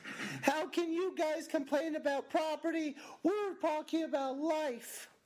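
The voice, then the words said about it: Imitates a woman's voice. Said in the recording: “your female impersonation.”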